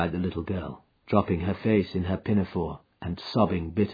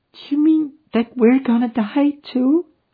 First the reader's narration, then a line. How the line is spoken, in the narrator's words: asked the child, checking her sobs